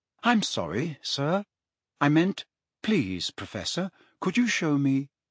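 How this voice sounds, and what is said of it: Unrecognizably polite voice. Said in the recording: “in an unrecognizably polite voice”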